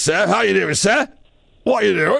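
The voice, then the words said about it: Working-class Croydon English accent. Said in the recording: “he's from Croydon, which is a very kind of blue collarish area”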